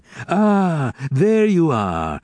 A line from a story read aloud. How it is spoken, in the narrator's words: he cried